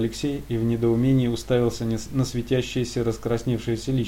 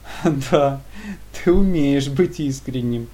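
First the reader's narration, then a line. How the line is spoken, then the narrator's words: Joyful, sincere. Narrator (Russian): Прозвучало радостно и без иронии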